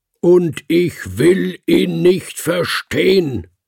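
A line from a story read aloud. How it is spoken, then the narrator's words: Roared. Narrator (German): brüllte er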